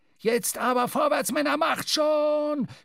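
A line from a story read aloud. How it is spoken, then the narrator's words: Shouting, spluttering. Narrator (German): schrie Stubb, wobei er blubbernd Rauchwolken ausstieß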